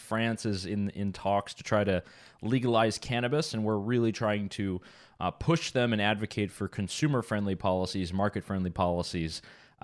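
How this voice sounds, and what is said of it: French-Canadian accent. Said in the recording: “my French-Canadian accent”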